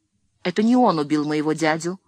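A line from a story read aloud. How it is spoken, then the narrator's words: Exclaiming. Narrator (Russian): воскликнула Леонсия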